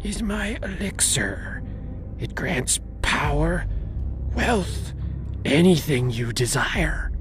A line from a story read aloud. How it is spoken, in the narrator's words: she whispered